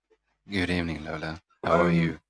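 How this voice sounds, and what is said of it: Deep smooth radio voice. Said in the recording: “he goes and have a radio voice ... You do like voiceovers”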